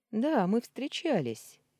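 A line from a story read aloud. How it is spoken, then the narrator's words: Cheerful declaration. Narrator (Russian): весело заявил он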